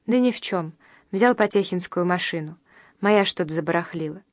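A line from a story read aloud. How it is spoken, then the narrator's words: Calm reply. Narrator (Russian): Салтыков спокойно, один бог знал, откуда бралось это спокойствие, ответил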